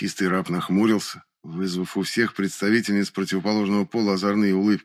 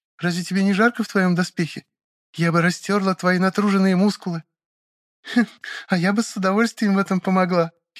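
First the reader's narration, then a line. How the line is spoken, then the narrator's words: Giggling. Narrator (Russian): хихикнула соседка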